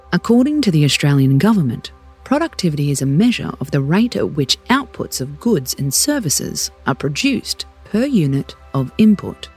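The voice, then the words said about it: Formal official-sounding voice. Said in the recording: “put on my official voice”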